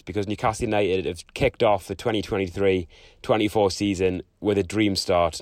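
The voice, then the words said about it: Hoarse, nearly lost voice. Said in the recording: “I've almost lost my voice”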